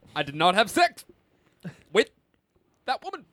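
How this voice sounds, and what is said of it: Obama impersonating Bill Clinton. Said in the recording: “President Obama doing an impression of former President Clinton ... Julie's got an Obama ... the lip smack”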